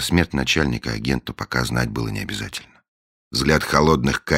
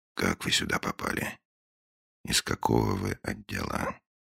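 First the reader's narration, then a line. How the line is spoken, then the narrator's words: Very quiet question after pause. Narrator (Russian): После паузы, очень тихо, Финч спросил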